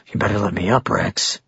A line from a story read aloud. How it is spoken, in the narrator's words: he said quietly